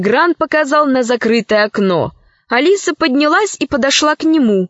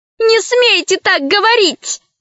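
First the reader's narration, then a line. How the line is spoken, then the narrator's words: Shouting. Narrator (Russian): закричала рабыня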